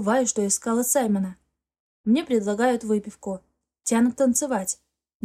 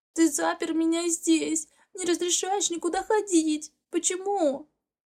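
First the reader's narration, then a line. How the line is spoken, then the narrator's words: Choked sobbing. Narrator (Russian): Доносится до меня сдавленное рыдание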